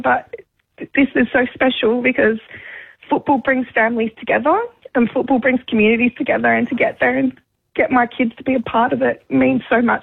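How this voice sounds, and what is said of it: Emotional, choked-up voice. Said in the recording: “sorry, I'm getting emotional,”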